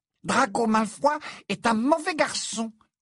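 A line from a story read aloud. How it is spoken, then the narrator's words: Angry squeak. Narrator (French): couina Dobby avec colère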